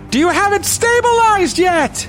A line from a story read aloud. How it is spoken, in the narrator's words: she yells down